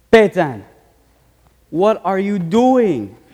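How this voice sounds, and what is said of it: Imitated Jamaican accent. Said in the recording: “in his authentic Jamaican accent”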